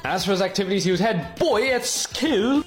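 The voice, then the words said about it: Terrible put-on British accent. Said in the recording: “That was a terrible UK accent.”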